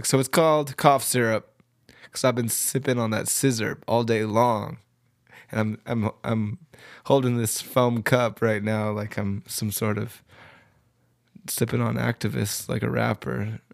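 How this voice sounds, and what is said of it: Sick, congested-sounding voice. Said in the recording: “it's flu season, and you can tell by my voice, I'm a little sick”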